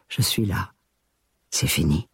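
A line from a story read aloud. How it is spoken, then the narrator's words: Repeated whispering. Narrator (French): j'ai chuchoté encore et encore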